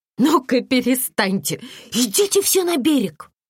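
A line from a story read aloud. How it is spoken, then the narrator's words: Mock-stern, laughing. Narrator (Russian): Татьяна попыталась придать голосу строгости, но вместо этого сама начала смеяться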